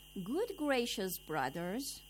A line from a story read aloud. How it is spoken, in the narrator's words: the fifth man called out